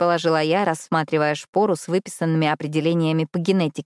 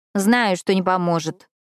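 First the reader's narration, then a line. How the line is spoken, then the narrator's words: Grumbling. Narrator (Russian): пробурчала Эш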